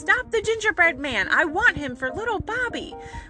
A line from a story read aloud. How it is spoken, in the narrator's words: she cried